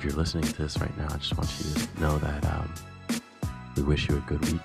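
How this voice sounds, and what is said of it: Public-radio announcer voice. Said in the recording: “I got my NPR voice on now.”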